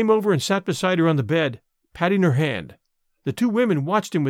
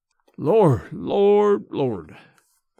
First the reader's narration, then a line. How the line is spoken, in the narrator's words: he muttered